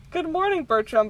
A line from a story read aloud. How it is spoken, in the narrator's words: Bob said sweetly